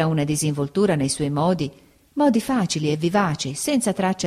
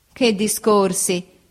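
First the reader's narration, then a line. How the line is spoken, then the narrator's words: Laughing. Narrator (Italian): disse ridendo Steerforth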